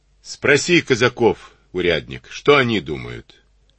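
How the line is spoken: Laughing. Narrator (Russian): засмеялся

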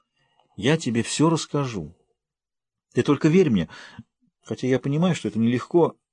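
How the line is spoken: Sighing. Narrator (Russian): вздохнула

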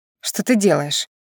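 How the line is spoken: Through gritted teeth, seething. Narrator (Russian): едва ли не сквозь зубы на последнем терпении выдавила, начиная закипать

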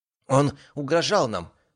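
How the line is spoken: Trembling voice. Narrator (Russian): добавила Валенсия дрожащим голосом

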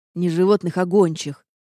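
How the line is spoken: Irritated correction. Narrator (Russian): раздраженно поправил меня Рейнард

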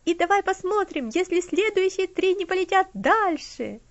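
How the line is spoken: Shouting. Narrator (Russian): закричал он

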